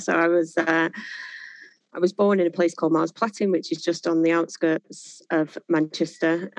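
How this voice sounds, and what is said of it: Greater Manchester accent. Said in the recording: “From the accent, it's pretty clear that you grew up in the area ... born and bred in Greater Manchester”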